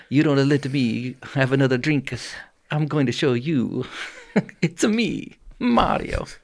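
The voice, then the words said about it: Character voice of Mario. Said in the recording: “we were doing the voices”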